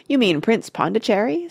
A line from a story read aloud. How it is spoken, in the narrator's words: said Grandpa Joe, and he began chuckling with laughter